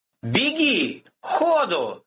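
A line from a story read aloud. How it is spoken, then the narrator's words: Shouting. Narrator (Russian): крикнул Антипов слуге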